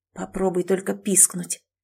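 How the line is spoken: Vicious whisper. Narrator (Russian): злобно прошептал он

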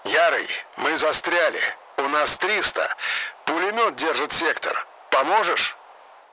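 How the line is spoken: Hoarse voice over crackling radio. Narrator (Russian): В ухе затрещала связь, и голос крапивы прохрипел

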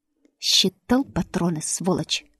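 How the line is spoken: Hissed through clenched teeth. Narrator (Russian): Процедил я сквозь зубы

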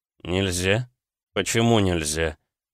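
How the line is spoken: Muttered. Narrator (Russian): Пробормотал я

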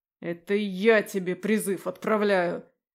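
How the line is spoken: Dragon's bark. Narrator (Russian): рявкнул зеленый дракон

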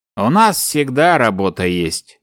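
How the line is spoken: Gloomy. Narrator (Russian): мрачно кивнул полковник

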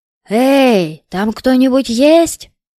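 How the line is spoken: Echoing shout. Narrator (Russian): закричал бездомный, голос которого отразился эхом по станции

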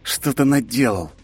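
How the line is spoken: Through gritted teeth. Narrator (Russian): цыжу сквозь зубы

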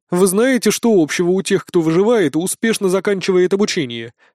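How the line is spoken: Plain. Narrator (Russian): сказала Пальма

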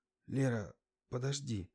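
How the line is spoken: Hoarse with excitement. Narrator (Russian): охрипшим от возбуждения голосом проговорил он

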